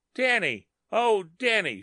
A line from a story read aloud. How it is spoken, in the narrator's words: she cried